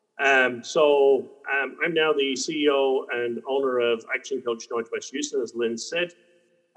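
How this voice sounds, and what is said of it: Irish accent. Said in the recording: “As you can probably tell from the accents, I'm not from these there parts. Um, I uh, originate from uh, Dublin, Ireland”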